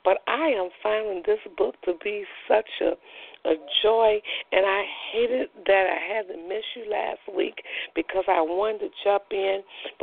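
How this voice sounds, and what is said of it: Strained, weakened voice. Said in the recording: “my voice is a little out tonight”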